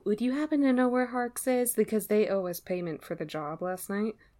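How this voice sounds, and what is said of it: Lowered, quiet voice. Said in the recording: “lower my voice”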